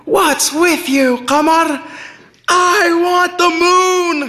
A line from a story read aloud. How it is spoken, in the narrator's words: she yelled